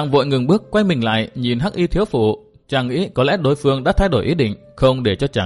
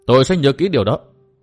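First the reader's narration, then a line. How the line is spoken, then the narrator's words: Raised voice reply. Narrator (Vietnamese): Tư Mã Minh cao giọng đáp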